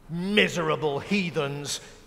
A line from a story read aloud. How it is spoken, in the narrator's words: muttered to himself